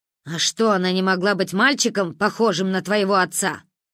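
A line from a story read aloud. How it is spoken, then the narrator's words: Father barking loudly. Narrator (Russian): гаркнул отец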